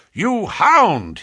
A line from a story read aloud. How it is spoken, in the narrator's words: he cried